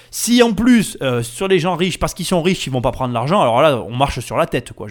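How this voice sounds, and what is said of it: Southern French accent. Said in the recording (French): “Mon accent du Sud est ressorti naturellement.”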